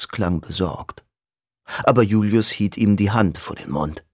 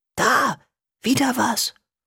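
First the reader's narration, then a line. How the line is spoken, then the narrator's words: Hissing. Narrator (German): zischte Julius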